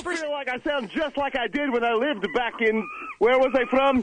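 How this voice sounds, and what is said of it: Put-on Scottish accent. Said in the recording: “this Scottish accent that the researchers have detected, I can hear it pretty easily. ... You don't think you sound like you're Scots?”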